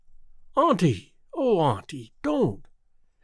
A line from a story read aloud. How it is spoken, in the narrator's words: exclaimed Theodora impulsively